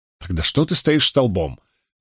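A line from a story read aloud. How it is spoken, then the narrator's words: Angry question to herself. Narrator (Russian): сердито спросила себя Найниф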